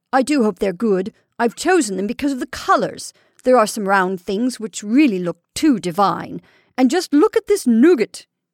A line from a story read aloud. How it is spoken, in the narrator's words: cried ecstatically